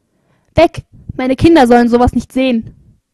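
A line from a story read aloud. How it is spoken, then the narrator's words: Screaming. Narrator (German): schrie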